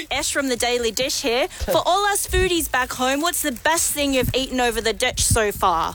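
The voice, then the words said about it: Put-on New Zealand accent. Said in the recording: “why that was a New Zealand accent”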